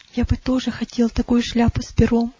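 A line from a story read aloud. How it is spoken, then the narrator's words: Whisper. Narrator (Russian): прошептал Иосиф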